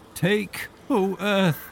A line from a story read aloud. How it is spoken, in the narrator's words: he cried